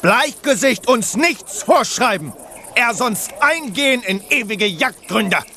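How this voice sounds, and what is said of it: Ridiculous mock Native American accent. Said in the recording (German): “wieso redet ihr mit diesem lächerlichen Akzent? ... diesen Ureinwohner-Akzent”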